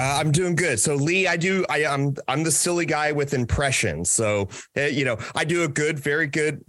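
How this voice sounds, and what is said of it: Usual voice. Nothing is said of it.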